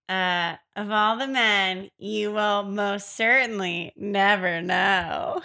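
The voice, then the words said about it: Sassy demon character voice. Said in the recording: “be the demon voice ... He was kind of sassy in my rendition.”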